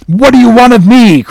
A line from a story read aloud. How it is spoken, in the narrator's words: cried the captain